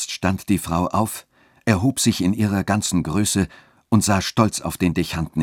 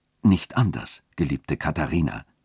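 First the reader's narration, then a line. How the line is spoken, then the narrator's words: Gentle voice, clergyman. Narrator (German): sagte der Dechant mit sanfter Stimme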